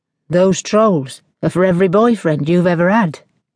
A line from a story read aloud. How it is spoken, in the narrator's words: asked Drew